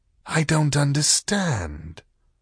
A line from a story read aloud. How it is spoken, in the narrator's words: said the whispery voice